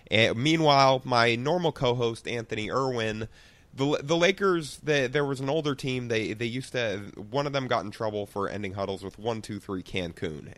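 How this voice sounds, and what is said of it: Rough, slightly sick voice. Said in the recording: “my voice sounds a little rough, I'm a little sick right now”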